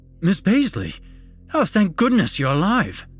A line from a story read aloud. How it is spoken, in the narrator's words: the explorer exclaimed